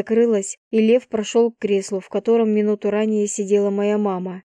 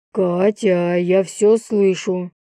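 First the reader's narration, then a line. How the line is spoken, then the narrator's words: Growling father. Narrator (Russian): прорычал папа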